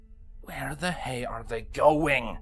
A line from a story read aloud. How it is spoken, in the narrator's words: Longshot growled